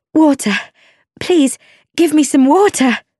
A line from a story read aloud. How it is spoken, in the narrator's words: cried